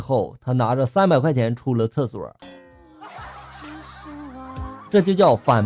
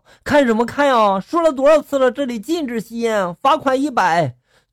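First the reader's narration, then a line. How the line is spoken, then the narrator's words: Shouting. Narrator (Chinese): 就喊道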